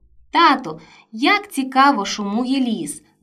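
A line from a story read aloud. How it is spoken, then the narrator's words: Boy's delighted exclamation. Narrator (Ukrainian): захоплено вигукнув хлопчик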